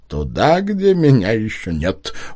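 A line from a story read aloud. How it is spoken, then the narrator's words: Chuckling. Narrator (Russian): он хохотнул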